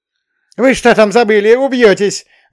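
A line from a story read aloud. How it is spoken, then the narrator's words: Old woman yelling. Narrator (Russian): заорала бабка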